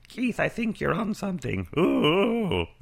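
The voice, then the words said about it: Silly put-on voice. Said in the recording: “That's not an impersonation. That's just me doing a silly voice.”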